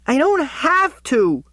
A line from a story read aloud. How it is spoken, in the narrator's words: she screeches